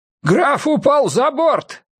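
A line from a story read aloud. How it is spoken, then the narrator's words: Sudden shout. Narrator (Russian): вдруг закричал Янс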